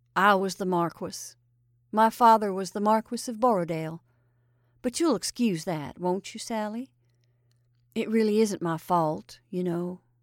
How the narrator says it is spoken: answered the cook calmly

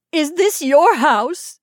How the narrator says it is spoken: she cried

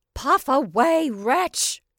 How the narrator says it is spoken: she cried wrathfully

